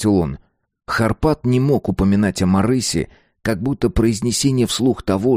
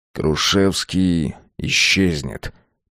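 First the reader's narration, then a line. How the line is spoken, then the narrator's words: Casual drawl. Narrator (Russian): протянул Вольф, словно ничего не произошло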